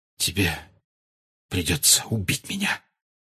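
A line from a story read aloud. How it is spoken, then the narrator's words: Whisper. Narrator (Russian): прошептал Сириус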